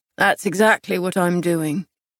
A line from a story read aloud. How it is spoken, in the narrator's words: he replied, his tone flat